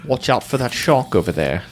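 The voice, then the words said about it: Imitates another person's voice, British. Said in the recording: “now I'm starting to just become generic British... Unless I'm doing lines from uh, Michael Caine movies”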